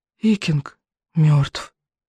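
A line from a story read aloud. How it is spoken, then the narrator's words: Whisper. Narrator (Russian): прошептал рыбьенок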